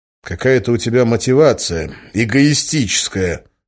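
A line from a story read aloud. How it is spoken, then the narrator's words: Angry. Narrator (Russian): зло сказал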